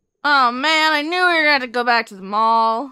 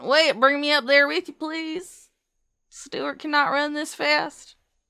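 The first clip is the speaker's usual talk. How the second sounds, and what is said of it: Put-on Southern accent. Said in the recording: “in a southern accent”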